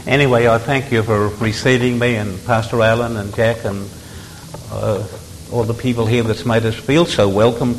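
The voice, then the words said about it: Australian accent. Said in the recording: “I'm an Australian by birth ... why didn't you pick up American accent?”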